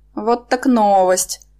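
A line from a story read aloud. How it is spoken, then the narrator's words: Inner groan. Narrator (Russian): я мысленно простонала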